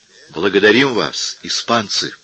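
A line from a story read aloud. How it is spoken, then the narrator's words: Enthusiastic exclamation. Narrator (Russian): с воодушевлением воскликнул Прим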